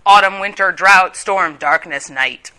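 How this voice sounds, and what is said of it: Voice drops low. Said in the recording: “That's the dark part. That's why my voice went low.”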